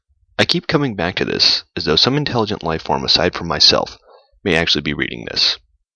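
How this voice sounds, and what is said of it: Silky, seductive radio announcer voice. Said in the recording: “in my silky and seductive radio voice”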